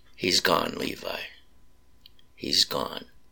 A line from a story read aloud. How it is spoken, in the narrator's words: softly whispered into his ear